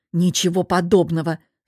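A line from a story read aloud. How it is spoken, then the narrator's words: Grumbling. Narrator (Russian): заворчала я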